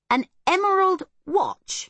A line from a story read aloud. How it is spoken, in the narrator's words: exclaimed the boy